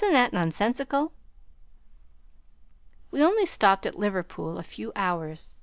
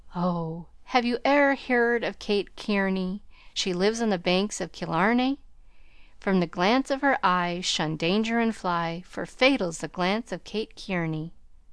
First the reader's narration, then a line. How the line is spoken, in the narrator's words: he sighed and sung